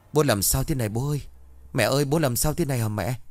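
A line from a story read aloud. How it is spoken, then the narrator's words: Trembling panicked shouting. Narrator (Vietnamese): Tùng vừa hét vừa run rẩy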